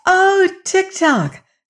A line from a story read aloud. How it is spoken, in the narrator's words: cried Dorothy